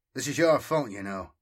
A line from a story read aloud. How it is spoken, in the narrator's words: Sirion said, with a chuckle